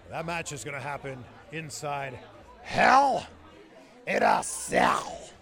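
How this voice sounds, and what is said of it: Vince McMahon impression with growl. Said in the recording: “Your Vince McMahon impression is top-notch ... give me a Hell in the Cell Vince McMahon ... That's amazing. And you got the growl in there at the end.”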